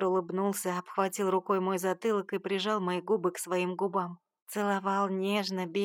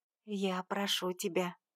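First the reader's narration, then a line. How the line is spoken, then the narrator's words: Quiet, pained sore-throat voice. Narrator (Russian): поморщилась от боли в горле тихо произнесла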